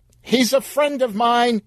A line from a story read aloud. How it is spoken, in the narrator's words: yelled Sheila, sprinting out of the darkness